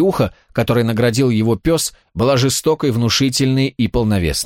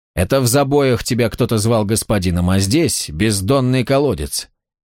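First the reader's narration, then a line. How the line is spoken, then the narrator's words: Very calm speech. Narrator (Russian): Вен говорил очень спокойно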